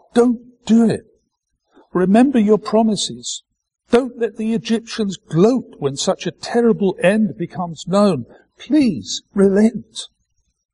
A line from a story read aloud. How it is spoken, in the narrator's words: On behalf of his people, he cried out